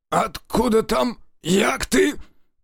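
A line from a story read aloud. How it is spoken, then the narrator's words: Old man's hoarse wheeze. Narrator (Russian): прохрипел старый блатарь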